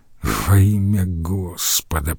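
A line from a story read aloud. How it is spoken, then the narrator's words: Muttered. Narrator (Russian): пробормотал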